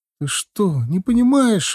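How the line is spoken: Indignant, tearful. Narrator (Russian): возмущенно начала говорить жена сквозь слезы

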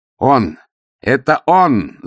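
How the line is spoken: Accusing yell. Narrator (Russian): завопил Пурхиз

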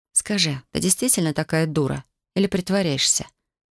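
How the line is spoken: Quiet. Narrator (Russian): Спросила я тихо

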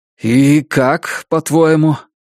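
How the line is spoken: Dejected sigh. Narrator (Russian): Он удрученно вздохнул

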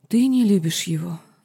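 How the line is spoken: Sad whisper. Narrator (Russian): грустно прошептала ведьма

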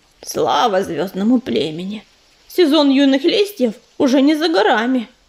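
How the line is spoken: Grumbling cat. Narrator (Russian): ворчала серая кошка

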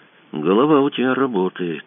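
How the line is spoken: Quiet. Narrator (Russian): тихо сказал Кацуба

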